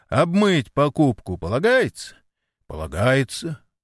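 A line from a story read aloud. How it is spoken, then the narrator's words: Cheerful proclamation. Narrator (Russian): развеселым голосом возгласил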